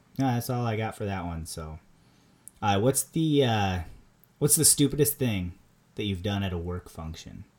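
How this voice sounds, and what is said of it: Strong Minnesota accent. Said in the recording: “I have a very strong Minnesota accent”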